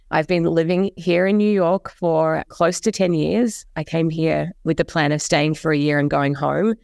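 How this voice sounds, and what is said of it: Australian / New Zealand accent. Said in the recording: “As you can probably tell, I have an accent. ... I grew up in Australia and in New Zealand”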